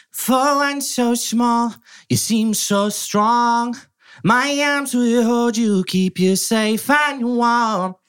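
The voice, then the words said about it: Imitates another person's singing voice. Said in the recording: “I've got an okay Phil Collins impersonation ... That's pretty good. ... That's really nice. That's really good.”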